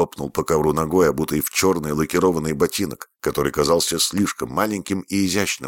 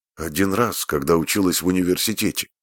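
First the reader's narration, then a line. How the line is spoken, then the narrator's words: Plain. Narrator (Russian): ответила Фрэнни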